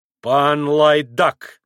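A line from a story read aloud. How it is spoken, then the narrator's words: Sudden grumble. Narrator (Russian): проворчал вдруг высокий пан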